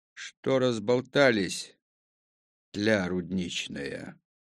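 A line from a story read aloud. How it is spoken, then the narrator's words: Calm question. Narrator (Russian): спросил спокойно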